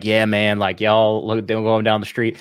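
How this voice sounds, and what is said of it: Imitated Cajun country accent. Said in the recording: “let his Cajun side rip ... just let the accent rip, bro. Like it's there. ... I can hear it. ... a really strong country accent”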